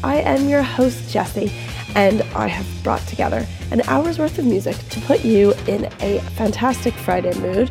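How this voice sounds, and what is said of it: Weak, congested sick voice. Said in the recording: “pardon my voice. ... suffering from summertime virus season, and it has taken over my entire ear, nose and throat region ... my lack of having much of a voice”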